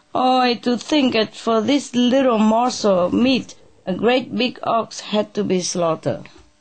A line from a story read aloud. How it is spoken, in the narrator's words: he cried